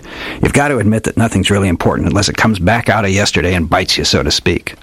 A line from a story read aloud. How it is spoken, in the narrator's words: he grunted